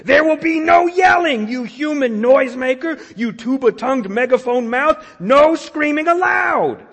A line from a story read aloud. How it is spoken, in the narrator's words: Smooth screamed